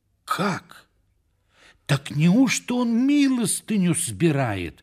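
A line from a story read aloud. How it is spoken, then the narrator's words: Exclamation. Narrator (Russian): воскликнул он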